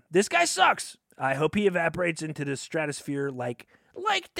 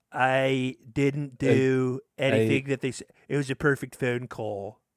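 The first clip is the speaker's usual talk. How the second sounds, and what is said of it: Attempted Donald Trump impression. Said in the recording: “Should we try our Trump impressions again? ... What accent was that?”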